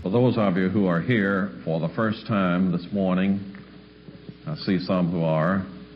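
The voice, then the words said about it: Southern American accent. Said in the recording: “somebody with a southern accent”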